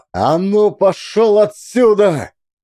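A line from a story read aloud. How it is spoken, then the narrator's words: Wild scream. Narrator (Russian): дико закричал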